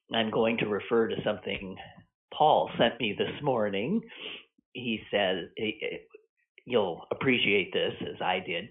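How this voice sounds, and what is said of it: Stuffy, congested voice. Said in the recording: “if I sound a little stuffed up”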